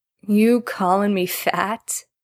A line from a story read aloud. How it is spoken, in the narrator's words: Jared slurred